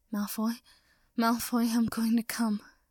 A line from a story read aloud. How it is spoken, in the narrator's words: Potter gasped and shuddered again